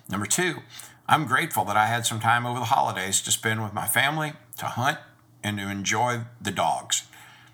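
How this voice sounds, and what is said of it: Weak, sick-sounding voice. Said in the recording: “As you can tell from my voice, it's a little weak and I've been battling the flu.”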